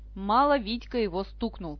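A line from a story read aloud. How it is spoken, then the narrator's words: Grumbled. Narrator (Russian): проворчал кузен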